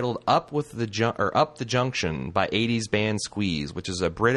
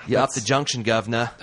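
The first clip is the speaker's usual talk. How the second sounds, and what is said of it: Put-on Cockney-style accent. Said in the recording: “I don't know what accent that was. ... Some sort of Cockney”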